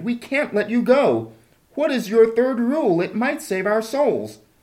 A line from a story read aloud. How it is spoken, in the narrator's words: they all cried